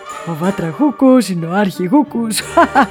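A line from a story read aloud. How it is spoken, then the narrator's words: Explaining. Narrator (Greek): εξήγησε ο Χαχάνας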